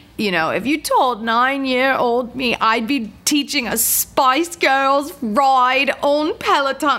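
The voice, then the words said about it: Poor imitation of British accent. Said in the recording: “the British instructor ... that was a terrible accent. ... Wow, that was awful.”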